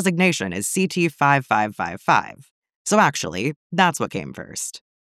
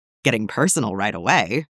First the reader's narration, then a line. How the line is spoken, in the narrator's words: Fives chuckles